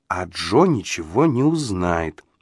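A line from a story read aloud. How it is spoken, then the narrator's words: Slow deliberate speech. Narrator (Russian): медленно произнесла Полли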